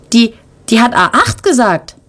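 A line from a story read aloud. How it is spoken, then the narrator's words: Excited speaking up. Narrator (German): meldet sich Tim aufgeregt zu Wort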